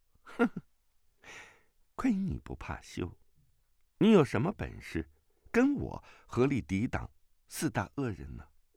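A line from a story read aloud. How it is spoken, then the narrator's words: Laughing through tears. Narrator (Chinese): 他虽给儿子引得笑了出来，但先前存在眼眶中的泪水终于还是流下了脸颊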